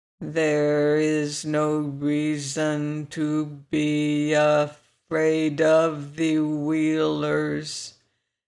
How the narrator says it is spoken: said Tick-Tock, the words coming more slowly than before

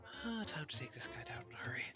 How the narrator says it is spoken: Charlotte just sort of mutters under breath

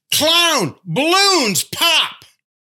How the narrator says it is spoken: this lady, start hollering

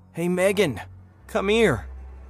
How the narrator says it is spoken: shouted, my voice trembling with a mix of relief and confusion

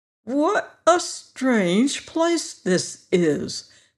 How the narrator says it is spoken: the creature exclaimed as if amazed

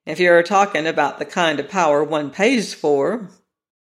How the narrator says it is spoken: said McAllen dryly

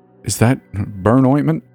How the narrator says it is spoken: He sputtered

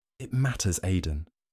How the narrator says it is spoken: Kira whispered her reply

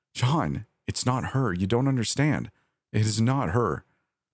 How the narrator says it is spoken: I said, my voice breaking

